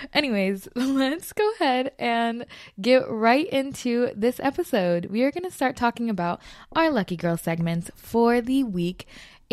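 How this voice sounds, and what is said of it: California Valley girl accent. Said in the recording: “I have a Valley accent.”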